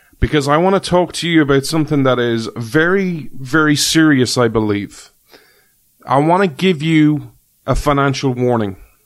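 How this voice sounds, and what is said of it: Irish accent. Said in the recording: “This Irish man ... you come for the accent.”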